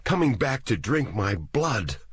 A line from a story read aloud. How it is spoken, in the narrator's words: he said in a trembling voice